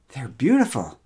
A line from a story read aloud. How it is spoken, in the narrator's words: exclaimed Mara